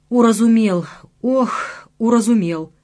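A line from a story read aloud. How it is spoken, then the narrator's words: Groaning. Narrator (Russian): простонал я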